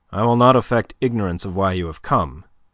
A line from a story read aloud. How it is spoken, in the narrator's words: he said quickly